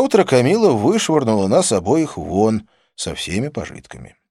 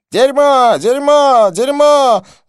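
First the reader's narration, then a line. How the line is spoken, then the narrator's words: Yelling. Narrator (Russian): завопил он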